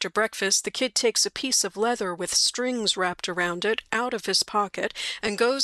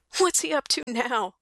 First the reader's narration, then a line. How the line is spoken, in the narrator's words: says Bill anxiously